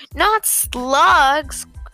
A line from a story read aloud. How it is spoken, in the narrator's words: George cried out